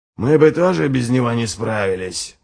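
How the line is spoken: Mutter. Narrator (Russian): пробормотал Ральф

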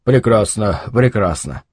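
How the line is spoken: Mutter. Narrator (Russian): бормотал он

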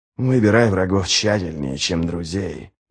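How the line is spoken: Muttering. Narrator (Russian): бормотал ничто

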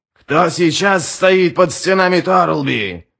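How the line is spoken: Roaring to a crowd. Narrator (Russian): взревел он собравшимся воинам

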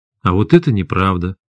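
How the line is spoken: Calm. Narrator (Russian): спокойно сказал Максим

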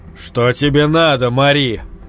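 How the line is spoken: Muffled question. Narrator (Russian): глухо спросил Якоб

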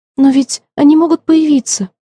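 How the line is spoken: Frightened. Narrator (Russian): испуганно продолжила мисс Флора

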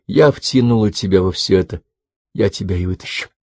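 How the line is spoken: Fervent whisper. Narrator (Russian): горячо зашептала

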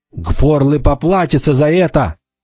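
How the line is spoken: Furious young woman's shout. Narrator (Russian): яростно закричала девушка

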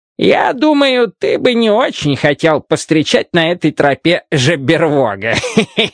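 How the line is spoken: Speech, then hearty laughter. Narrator (Russian): сказал он и смачно захохотал

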